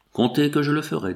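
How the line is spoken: Plain. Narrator (French): dit-il

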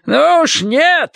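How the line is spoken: Yelling. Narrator (Russian): заорал он

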